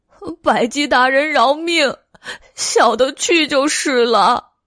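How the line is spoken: Cat crying. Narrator (Chinese): 黑花狸猫哭道

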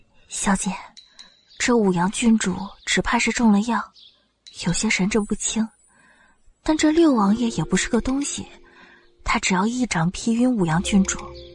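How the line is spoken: Whispered into ear. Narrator (Chinese): 韩秋凑到云柯耳边嘀咕道

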